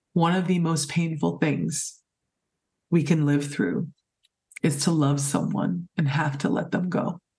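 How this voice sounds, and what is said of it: Emotional, choked-up voice. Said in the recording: “sorry, I'm just getting a little emotional,”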